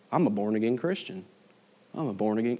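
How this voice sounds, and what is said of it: Attempted Southern US accent. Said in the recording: “That's me trying an accent. I can't do that.”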